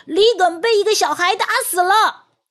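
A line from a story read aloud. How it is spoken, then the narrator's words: Shouting. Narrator (Chinese): 一名龙虾兵大叫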